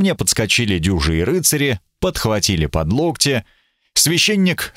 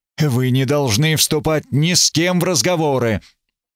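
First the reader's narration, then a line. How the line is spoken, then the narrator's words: Irritated hiss. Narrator (Russian): Граф Эбергард прошипел раздраженно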